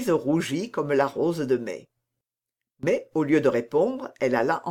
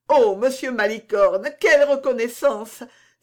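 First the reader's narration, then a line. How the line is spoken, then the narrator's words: Joyful exclamation. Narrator (French): s'écria Louise en joignant les mains et en bondissant de joie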